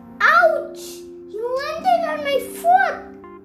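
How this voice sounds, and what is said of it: Screaming. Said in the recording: “You're screaming.”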